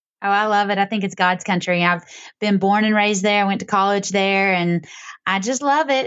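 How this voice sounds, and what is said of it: Southern US accent. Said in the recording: “down south because of your accent”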